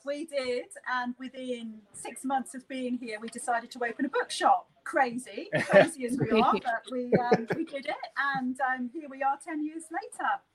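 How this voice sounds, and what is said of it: Non-Australian accent. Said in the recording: “I don't know if you can tell from ... accent, but she's not originally from South Australia”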